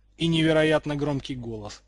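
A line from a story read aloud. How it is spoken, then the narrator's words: Amused snort. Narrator (Russian): хмыкнул Уизли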